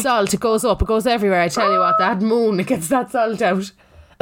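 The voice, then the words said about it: Speaks with a regional accent. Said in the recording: “Sorry about my accent.”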